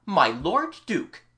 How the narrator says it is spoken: in a loud voice and bowing low

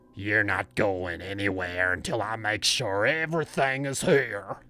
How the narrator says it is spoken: he growled

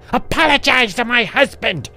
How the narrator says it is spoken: she screamed as loud as she could

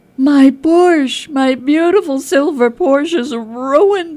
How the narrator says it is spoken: he screams

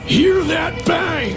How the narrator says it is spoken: laughing the whole time

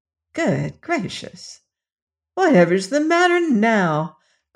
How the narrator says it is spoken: cried Dorothy as the copper man continued to babble these unmeaning words

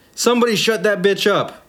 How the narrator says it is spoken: yelled a guy

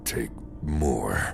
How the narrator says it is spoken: it growled

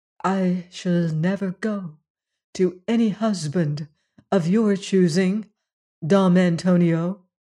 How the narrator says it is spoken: Juana said again in a low and steady voice

